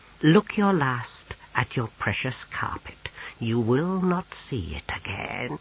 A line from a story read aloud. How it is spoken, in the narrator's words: Gormalish hissed